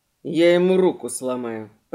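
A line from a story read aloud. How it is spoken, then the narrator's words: Grumble. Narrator (Russian): проворчал Чарли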